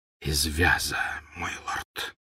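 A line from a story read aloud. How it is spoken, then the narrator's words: Whisper. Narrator (Russian): прошептал Малфой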